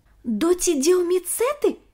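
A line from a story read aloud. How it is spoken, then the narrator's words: Exclaiming. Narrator (Russian): воскликнул Ник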